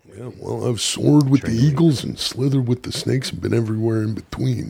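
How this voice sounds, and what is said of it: Imitates another person's voice. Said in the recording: “impersonation ... This is Stone Cold.”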